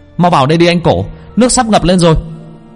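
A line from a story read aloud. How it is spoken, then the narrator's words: Shout. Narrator (Vietnamese): Duy hét lên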